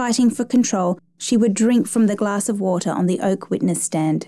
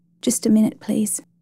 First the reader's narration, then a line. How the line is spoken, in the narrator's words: overcome by the detail of some memory of her mother, she would murmur